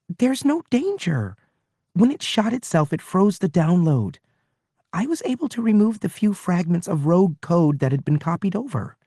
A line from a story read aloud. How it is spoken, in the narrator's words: Pin-Li was saying impatiently